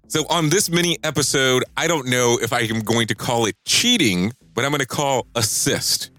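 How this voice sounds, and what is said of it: Deeper, sick-sounding voice. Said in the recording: “my voice sounds deeper, I am coming off of a flu or something”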